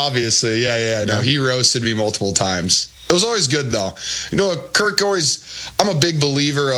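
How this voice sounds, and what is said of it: Usual voice. Nothing is said of it.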